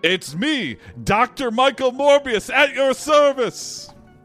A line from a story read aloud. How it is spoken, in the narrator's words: a mysterious figure enters and yells